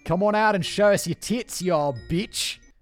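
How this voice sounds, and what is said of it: Poor put-on Australian accent. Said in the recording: “do the Australian accent really well ... No Australian accent today, mate. ... God, that was bad.”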